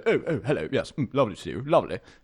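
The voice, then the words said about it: Very posh upper-class English voice. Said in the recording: “didn't sound Australian at all. He was like so posh that he had completely lost the accent ... the really poshest people all sound the same ... that was his voice.”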